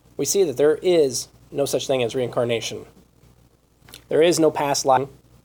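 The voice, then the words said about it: Strained, failing voice. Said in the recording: “losing my voice here.”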